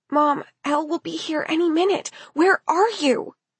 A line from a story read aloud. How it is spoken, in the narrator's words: whispered into the phone